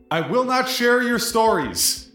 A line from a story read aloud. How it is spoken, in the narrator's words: shout at the top of your lungs